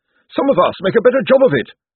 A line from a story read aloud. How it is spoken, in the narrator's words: snapped Josephine